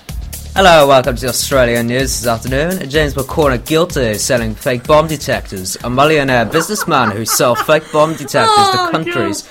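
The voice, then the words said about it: Put-on Australian accent, newsreader style. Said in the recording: “do one of your accents. ... Please do the Australian one. Yeah, the Australian one. ... That's his accent.”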